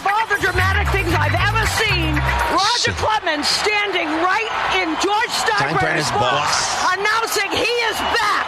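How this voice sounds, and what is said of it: Strong Boston accent. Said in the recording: “How can you have that accent calling in Yankees games? That's like the most Boston accent I've ever seen.”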